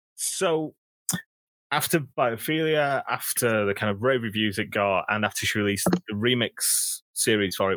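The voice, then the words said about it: Northern English accent. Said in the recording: “I'm really glad I've got a northern accent”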